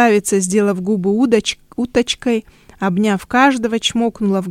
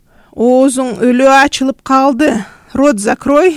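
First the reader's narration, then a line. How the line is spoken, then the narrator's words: Laughing. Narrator (Russian): засмеялся Камчи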